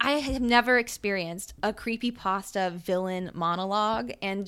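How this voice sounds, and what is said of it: Usual voice. Nothing is said of it.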